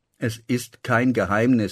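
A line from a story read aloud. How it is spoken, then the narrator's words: Plain. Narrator (German): sagte Murat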